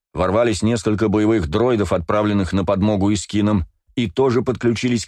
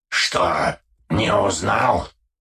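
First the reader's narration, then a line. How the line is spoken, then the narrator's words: Grating hoarse voice. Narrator (Russian): проскрежетал все тот же хриплый голос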